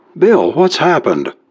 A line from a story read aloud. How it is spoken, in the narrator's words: cried Carol when she saw his white and terrified face